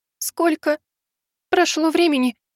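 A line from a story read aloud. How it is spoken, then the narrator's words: Sobbing. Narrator (Russian): всхлипнула она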